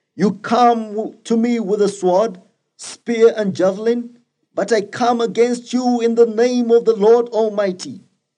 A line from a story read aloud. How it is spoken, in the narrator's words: David shouted